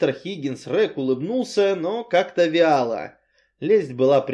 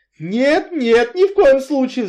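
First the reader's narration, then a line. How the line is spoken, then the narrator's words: Shrill squeal. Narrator (Russian): взвизгнул Энси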